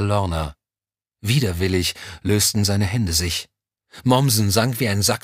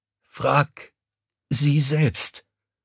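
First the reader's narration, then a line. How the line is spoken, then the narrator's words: Croaking. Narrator (German): Mommsen öffnete die gesprungenen Lippen und krächzte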